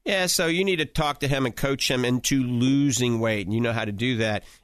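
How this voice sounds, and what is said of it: Cajun accent. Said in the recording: “that's my coon-ass accent coming out”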